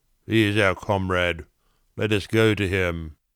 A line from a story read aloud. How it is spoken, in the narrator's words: he who never laughed, sullenly said